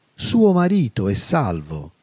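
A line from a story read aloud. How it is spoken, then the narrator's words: Plain. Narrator (Italian): rispose il santo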